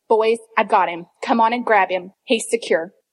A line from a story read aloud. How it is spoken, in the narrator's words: said gravely